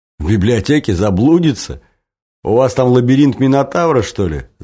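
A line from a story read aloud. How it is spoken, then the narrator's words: Laughing. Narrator (Russian): засмеялся Женя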